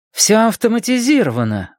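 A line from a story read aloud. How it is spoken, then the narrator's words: Exclamation. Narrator (Russian): воскликнула Джеки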